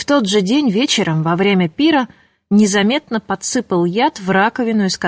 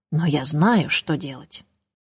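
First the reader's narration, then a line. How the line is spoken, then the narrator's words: Ominous whisper. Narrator (Russian): зловещим шепотом прибавил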